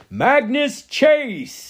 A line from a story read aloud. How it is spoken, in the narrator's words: he bellowed